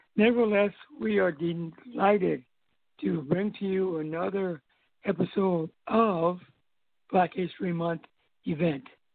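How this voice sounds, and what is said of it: Hoarse, strained voice. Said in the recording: “losing my voice as I go along”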